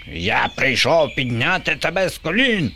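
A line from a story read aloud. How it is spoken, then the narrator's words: Screeching. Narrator (Ukrainian): верещав Боба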